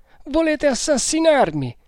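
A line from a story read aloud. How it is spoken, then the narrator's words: Whimpering. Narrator (Italian): piagnucolò Manciadi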